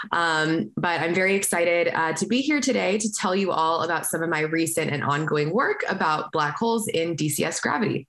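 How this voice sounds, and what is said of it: Hoarse, weakened voice. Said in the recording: “I've lost my voice a little bit. So if you're having a hard time hearing me”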